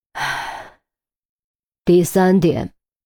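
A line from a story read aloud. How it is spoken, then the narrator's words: Heavy, sighing after pause. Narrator (Chinese): 陆明没有立刻回答，而是沉默了一会儿，才叹了口气，用有些沉重的语气说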